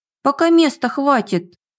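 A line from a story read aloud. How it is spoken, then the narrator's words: Octopus's sad sigh. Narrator (Russian): Грустно вздохнул осьминог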